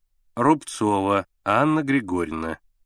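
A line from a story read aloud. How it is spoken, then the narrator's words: Slow dictation. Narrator (Russian): медленно диктовала Агриппина Тихоновна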